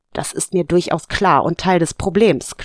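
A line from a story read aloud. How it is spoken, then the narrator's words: Growl. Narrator (German): knurrte sie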